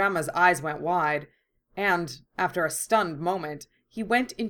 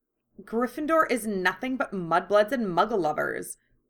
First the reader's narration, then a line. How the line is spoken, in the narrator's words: she spat